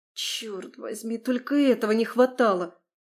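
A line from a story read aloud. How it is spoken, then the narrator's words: Muttered. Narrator (Russian): пробормотала я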